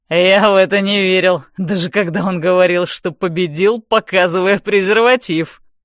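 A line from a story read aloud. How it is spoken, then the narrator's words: Giggling, amused. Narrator (Russian): хихикает Джейс, наслаждаясь шоу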